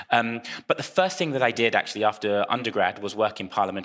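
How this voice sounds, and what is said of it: British voice with slight American accent. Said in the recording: “I have a bit of an American accent, some people tell me, in the UK”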